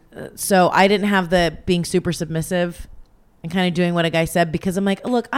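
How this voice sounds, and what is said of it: Raspy voice. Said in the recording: “Can't you tell by my raspy voice? ... Every time I think about sex, I just smoke a pack of cigarettes all at once. And I gargle with the filters.”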